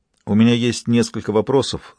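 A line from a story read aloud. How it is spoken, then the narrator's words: Calm, businesslike. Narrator (Russian): спокойным, но деловым тоном произнес Жан-Ги Бавуар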